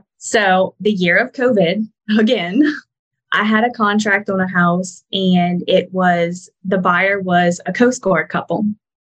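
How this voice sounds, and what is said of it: Cajun Louisiana accent. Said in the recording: “Your accent is different than mine... You got that Cajun version and I've got the redneck version.”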